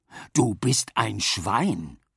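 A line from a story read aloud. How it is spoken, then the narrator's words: Plain. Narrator (German): sagte Papa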